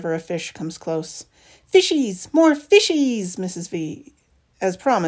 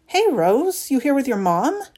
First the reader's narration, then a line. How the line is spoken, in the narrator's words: Claire asks